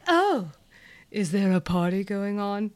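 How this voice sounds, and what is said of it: Imitates another person's voice. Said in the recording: “In my head, that's what her voice sounds like.”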